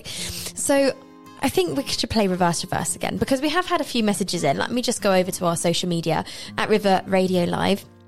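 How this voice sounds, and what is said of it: Slightly hoarse, husky voice. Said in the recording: “losing my voice slightly... I'm losing my voice... embrace the, the, the husky tones”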